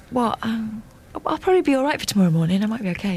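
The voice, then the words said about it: Sick, sore-throated voice. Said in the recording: “I'm so ill ... You got a little bit of a sore throat ... your voice didn't sound as bad as that. You're doing your sick voice.”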